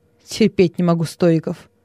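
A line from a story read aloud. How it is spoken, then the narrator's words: Plain. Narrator (Russian): сказал Нерон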